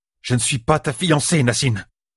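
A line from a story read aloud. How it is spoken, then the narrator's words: Annoyed exclamation. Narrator (French): s'écria-t-elle, agacée d'être obligée de le dire tout haut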